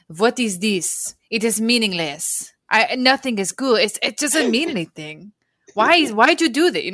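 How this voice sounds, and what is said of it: Imitated French accent. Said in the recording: “she has like a French accent”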